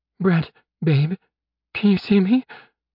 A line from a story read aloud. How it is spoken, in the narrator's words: She asked, her voice trembling